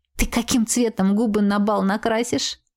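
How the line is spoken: Conspiratorial question. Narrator (Russian): Перестав хихикать, заговорщицки спросила она

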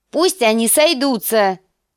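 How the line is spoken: Shout. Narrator (Russian): крикнул лорд Роберт

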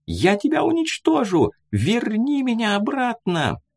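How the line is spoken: Shrieking. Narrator (Russian): Продолжал он визжать

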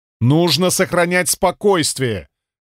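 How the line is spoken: Loud, fat man. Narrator (Russian): громко произнес опиравшийся на колонну толстяк

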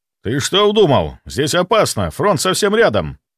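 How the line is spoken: Indignant. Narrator (Russian): Возмущенно проговорил Глеб

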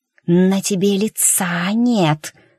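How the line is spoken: Snake hissing. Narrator (Russian): зашипела змея

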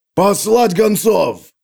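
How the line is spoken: Roaring. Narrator (Russian): проревел угрок

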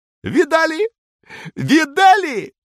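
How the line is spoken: Joyful shout. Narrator (Russian): радостно кричит Выбегалла

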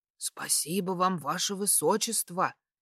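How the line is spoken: Low whisper. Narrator (Russian): понизив голос, прошептала

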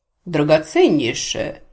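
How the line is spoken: Ornate start. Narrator (Russian): витиевато начал он

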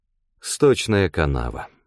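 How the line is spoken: Sad sigh. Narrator (Russian): Данте печально вздохнул

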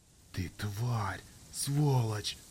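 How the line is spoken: Whispered. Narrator (Russian): прошептал

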